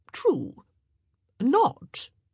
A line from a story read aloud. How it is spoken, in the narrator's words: said sharply